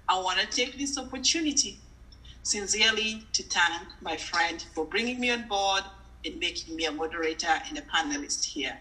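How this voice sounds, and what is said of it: Unique non-native English accent. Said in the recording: “I love your accent, by the way. It's really unique.”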